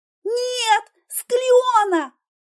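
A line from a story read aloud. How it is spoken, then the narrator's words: Children squeaking. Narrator (Russian): пищат дети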